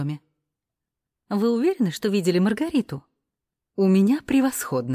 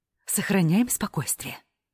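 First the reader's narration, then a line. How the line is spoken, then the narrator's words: Whispered shout. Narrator (Russian): шепотом кричит на нас Клаудия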